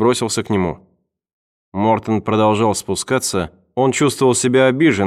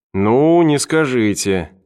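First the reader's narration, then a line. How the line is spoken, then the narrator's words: Drawled. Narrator (Russian): протянул Эванс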